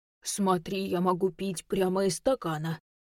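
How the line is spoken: Deep mock teen voice. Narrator (Russian): пробасила Женя, имитируя сломанный голос подростка

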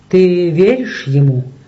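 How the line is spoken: Plain. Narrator (Russian): спросил Майкл

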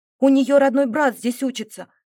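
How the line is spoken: Exclaimed. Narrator (Russian): воскликнула

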